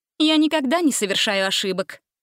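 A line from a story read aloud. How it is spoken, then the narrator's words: Stern. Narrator (Russian): строго заметила Гретель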